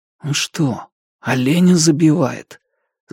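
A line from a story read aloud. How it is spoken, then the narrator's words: Hopeful whisper. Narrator (Russian): зашептал в надежде, что так оно и есть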